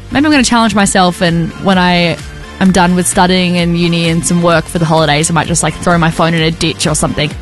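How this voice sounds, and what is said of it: Husky voice. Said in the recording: “I've got a bit of a sexy voice on today. It's a bit husky. My voice is a bit husky.”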